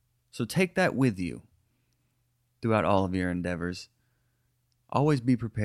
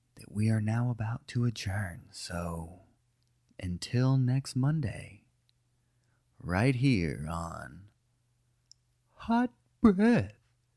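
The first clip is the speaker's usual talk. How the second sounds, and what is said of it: AM radio announcer voice. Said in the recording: “as we ease into this AM radio voice on this outro”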